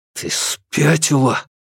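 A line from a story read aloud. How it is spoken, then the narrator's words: Forced through clenched teeth. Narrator (Russian): Сквозь стиснутые зубы он выдавил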